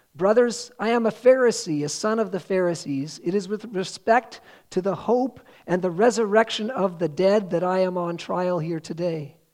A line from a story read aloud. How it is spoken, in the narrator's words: Paul cried out in the council